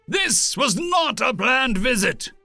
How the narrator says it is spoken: Zhao barked

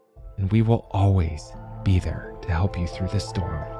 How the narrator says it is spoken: With a conspiratorial wink, Matt leaned close to her ear, and whispered

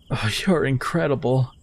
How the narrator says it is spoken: barely gasped, a simple yet genuine

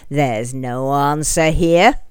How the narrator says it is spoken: he snarled triumphantly

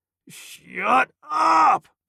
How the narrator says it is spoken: Greg roared

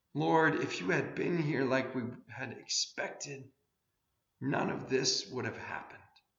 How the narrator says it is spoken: We weep for our world as it grinds to a halt and cries out

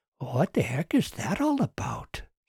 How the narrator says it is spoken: Susan whispered to Doug

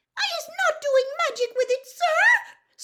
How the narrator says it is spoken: squealed Winky, tears streaming down the sides of her squashed and bulbous nose

